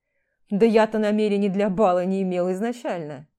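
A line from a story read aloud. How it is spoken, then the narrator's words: Mocking wolf snarl. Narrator (Russian): Оскалился насмешливо волк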